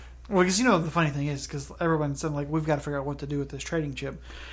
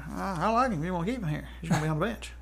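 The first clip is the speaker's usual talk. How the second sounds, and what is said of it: Jerry Jones impression with accent. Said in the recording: “I don't know what kind of accent that is that he's got, but... Not a bad Jerry Jones. He's got an awful accent himself.”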